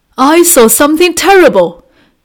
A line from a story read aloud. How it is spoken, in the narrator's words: he cried to his wife and son